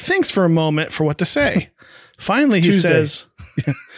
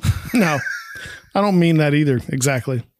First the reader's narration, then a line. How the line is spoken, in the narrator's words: Greg chuckles selfishly, saying